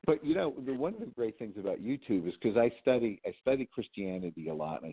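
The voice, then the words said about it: New England accent. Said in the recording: “your New England accent”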